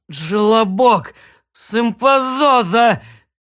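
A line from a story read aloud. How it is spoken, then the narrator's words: Gasping, convulsive sobbing. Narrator (Russian): задыхаясь, разразился судорожными рыданиями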